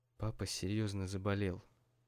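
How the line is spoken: Quiet, mother. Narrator (Russian): тихо проговорила мама

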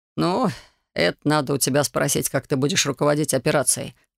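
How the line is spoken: Smirking grunt. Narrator (Russian): хмыкнул Самсонов

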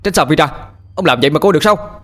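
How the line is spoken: Shouted. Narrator (Vietnamese): Tôi hét lên

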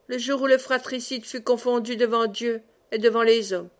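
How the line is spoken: Cold. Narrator (French): dit froidement

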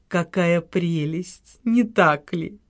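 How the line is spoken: Tender cooing. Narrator (Russian): умилительно проворковала маркиза

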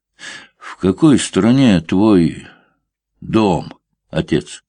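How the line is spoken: Plain. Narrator (Russian): спросил Алексей

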